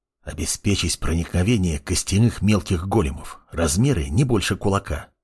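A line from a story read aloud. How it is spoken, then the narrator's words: Boy whispering. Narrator (Russian): прошептал мальчишка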